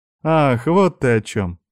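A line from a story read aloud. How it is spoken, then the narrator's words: Laughing. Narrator (Russian): засмеялась та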